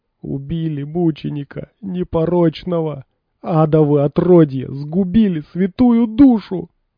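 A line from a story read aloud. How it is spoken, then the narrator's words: Dazed moaning. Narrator (Russian): Лита застонала, приходя в себя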